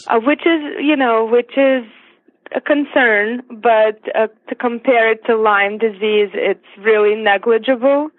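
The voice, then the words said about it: Siberian foreign accent. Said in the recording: “your beautiful accent. ... I was actually born in Siberia”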